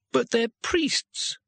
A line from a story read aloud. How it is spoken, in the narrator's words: wailed Twoflower